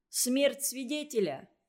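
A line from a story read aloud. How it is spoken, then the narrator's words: Shout. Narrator (Russian): крикнул Игорек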